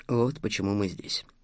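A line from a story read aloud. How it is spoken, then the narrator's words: Hoarse, relieved. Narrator (Russian): закончил Стас хрипло, чувствуя облегчение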